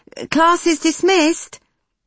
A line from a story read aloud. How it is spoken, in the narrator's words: Nikki called out to the back